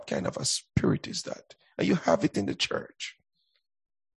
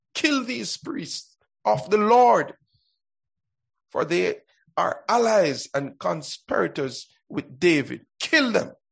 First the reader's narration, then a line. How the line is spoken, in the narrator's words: the king shouted